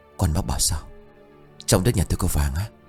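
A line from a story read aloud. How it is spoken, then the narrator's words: Frightened hushed older man. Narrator (Vietnamese): Người đàn ông độ ngoài 50, gương mặt hiện rõ nét lam lũ của thời cuộc, vội tái mặt nhỏ giọng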